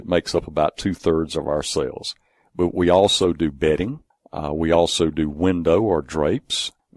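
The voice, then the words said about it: Speaker's own regional accent. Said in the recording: “I sometimes with my accent have to spell that”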